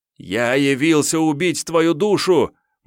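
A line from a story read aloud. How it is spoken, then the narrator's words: Sudden shout, young man. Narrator (Russian): неожиданно выкрикнул парень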